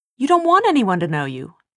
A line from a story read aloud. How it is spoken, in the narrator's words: Tessa snapped